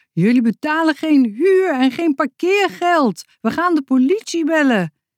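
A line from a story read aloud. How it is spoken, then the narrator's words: Woman's shrill shout. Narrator (Dutch): riep een vrouw met een schelle stem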